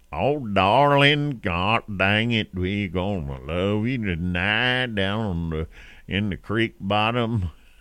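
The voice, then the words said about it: Exaggerated country singing twang. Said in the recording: “when they sing ... All of a sudden, their country's on it.”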